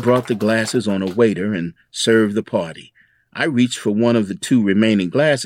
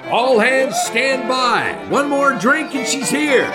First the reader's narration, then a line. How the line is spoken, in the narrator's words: Tom shouted